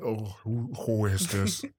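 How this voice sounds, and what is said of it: Disguised fake voice. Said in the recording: “I'm gonna put on that fake voice.”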